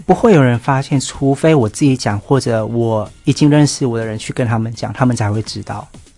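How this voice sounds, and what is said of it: Slight non-local accent. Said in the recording (Chinese): “仔细听，当然你还是有一点点小小的口音”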